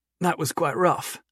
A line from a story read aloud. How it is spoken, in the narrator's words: he said in a strained voice